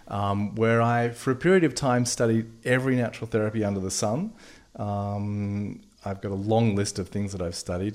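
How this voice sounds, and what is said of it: Australian accent. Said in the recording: “You have an accent ... I'm an Aussie”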